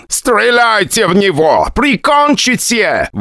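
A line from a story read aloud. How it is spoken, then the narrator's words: Screaming in pain. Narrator (Russian): вопил от боли Дэйн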